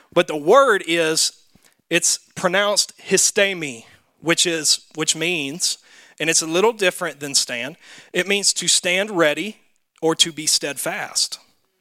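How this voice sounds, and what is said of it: Southern American accent. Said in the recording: “I got a southern accent”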